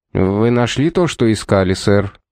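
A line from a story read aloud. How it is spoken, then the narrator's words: Concerned question. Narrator (Russian): озабоченным тоном спросил Стендер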